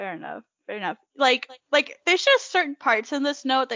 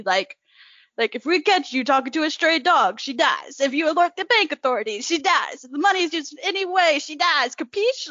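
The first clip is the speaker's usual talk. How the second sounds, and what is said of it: Put-on New York mobster accent. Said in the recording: “you could read in a New York accent, and it could be used in like a Godfather esque movie”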